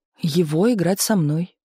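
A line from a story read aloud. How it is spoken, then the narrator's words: Calm explanation. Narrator (Russian): пояснила спокойно Галина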